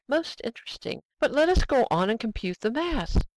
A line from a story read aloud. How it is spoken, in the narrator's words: cried Servadac